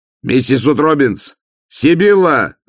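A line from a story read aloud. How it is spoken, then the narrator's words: Shouting in terror. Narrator (Russian): закричал он, чувствуя, как ужас извивается и узлом затягивается у него внутри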